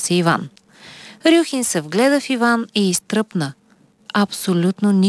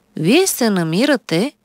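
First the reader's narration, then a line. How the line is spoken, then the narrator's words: Calm doctor speaking. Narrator (Bulgarian): спокойно заговори лекар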